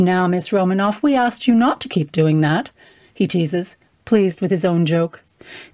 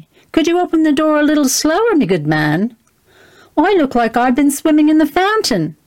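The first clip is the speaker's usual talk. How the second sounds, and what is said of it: Loud cockney woman's voice. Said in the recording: “she blasts. Her cockney accent as out of place as she is”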